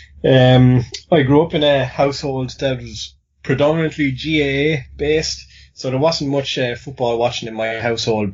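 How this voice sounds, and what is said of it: Irish accent. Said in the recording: “Big surprise to all listeners based on my accent. I'm Irish”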